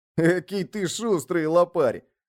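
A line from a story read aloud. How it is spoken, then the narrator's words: Loud, giggling. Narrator (Russian): громко проговорил Марокко, хихикая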